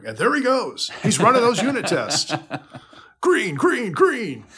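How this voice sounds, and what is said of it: Jim Nantz style commentator voice. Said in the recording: “Jim Nance, color commentator ... you got the radio voice.”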